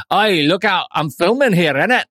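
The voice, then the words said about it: Deliberately bad put-on accent. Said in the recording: “I shall do a bad accent ... In the accent”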